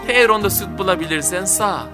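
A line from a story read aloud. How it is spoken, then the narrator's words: Plain. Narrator (Turkish): dedi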